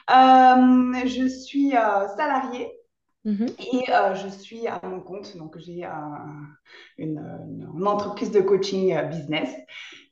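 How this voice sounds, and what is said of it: Slight Swiss French accent. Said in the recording (French): “j'habite en Suisse euh, donc le petit accent qui vient, euh, ... vient de là”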